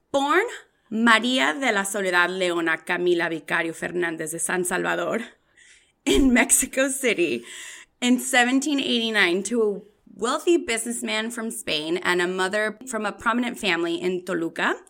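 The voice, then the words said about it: Mexican Spanish pronunciation of names. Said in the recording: “I'm going to say a lot of things in my Mexican Spanish accent ... you roll that tongue”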